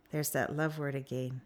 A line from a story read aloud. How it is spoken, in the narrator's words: she said on a yawn